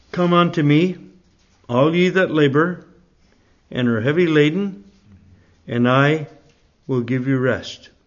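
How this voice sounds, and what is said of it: Canadian Nova Scotia accent. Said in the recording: “You can tell by my accent that I'm not from Bicester. I'm from a place in Nova Scotia, which is on the east coast of Canada ... a little island there called Cape Breton”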